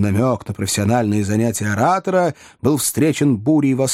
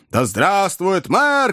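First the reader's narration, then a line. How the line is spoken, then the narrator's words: Shouted. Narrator (Russian): кричал кто-то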